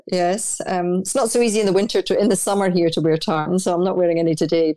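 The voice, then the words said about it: Noticeable foreign accent. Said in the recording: “I stand out here because of my accent”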